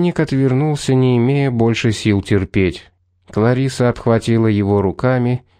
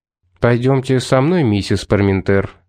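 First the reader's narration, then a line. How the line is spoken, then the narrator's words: Even tone. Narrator (Russian): сказал ровным тоном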